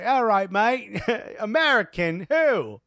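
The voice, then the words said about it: Weak put-on English accent. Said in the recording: “that's the best I could do with an English accent”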